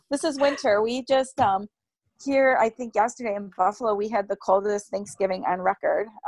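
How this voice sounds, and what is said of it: Raspy voice from a cold. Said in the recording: “I do have a cold... my voice is very raspy today”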